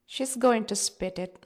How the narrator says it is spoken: my father chuckles

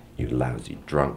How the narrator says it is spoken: whispered

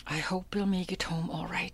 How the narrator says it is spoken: she whispered

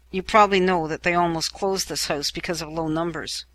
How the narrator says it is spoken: whispers quickly

